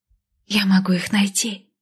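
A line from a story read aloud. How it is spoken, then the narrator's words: Soft whisper. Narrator (Russian): негромко прошептала Лестра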